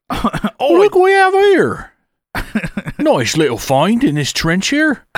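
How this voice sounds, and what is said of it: Put-on British accent. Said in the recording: “So I've been practicing my British accents.”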